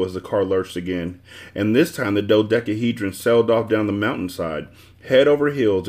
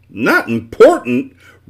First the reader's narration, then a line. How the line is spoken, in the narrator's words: roared the dodecahedron, turning red with fury